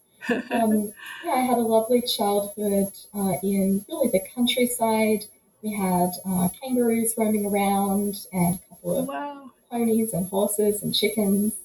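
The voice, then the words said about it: Australian accent. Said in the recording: “I'm Australian by birth, as might be revealed by my accent.”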